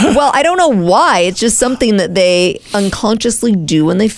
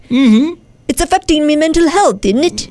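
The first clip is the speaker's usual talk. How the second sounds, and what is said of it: Poor British accent, sounds Irish. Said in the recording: “in a British accent ... I feel like that's not British. ... I feel like you sound like some kind of little leprechaun.”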